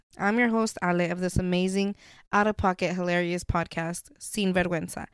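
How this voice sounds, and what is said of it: Weird-sounding voice, still recovering. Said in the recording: “If I sound a little weird, I'm recuperating right now ... I think my voice is okay enough to where you guys will understand me, hopefully”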